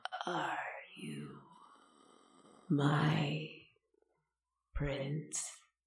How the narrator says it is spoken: asked him in her croaking, dry voice

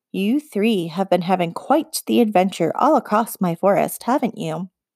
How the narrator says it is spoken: She said icily

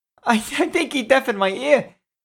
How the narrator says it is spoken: cried the man

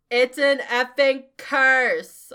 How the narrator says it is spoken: I shouted

